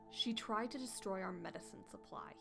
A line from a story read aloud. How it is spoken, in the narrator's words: he snarled